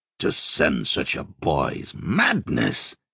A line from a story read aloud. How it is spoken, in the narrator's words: he growled